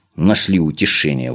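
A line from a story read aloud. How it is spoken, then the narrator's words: Grumbling. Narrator (Russian): ворчал он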